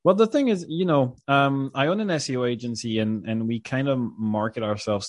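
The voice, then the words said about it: French accent. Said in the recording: “I'm French. I hope the dear viewers can't hear it, but I'm French ... the French accent”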